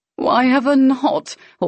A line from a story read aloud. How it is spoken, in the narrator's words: Hawkins said with a laugh